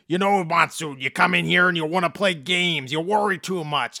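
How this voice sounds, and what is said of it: Gruff Minnesota accent impression. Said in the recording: “the body's got that kind of Minnesota gruff accent”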